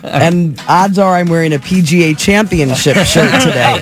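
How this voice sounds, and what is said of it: Impression of broadcaster Tom Ackerman. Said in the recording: “Are you going to do your Tom Ackerman?”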